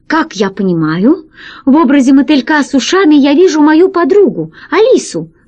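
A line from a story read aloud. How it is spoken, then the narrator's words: Exclamation. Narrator (Russian): воскликнул катастрофист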